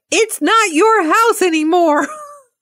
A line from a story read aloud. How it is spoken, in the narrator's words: every one of the children in the backseat yell out